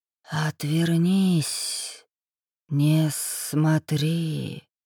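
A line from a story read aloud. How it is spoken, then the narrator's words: Strong whisper close by. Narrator (Russian): раздался над ухом сильный шепот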